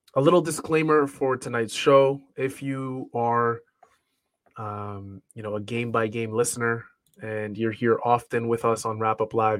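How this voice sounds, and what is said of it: Congested, slightly raspy sick voice. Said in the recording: “hear it in my voice... I'm not 100%... feeling a little sick. You could probably hear it, a lot of nasal congestion. Throat is a little raspy.”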